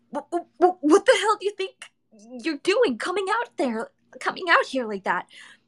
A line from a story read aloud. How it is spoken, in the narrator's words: I cried, unable to contain the frantically high pitch in my voice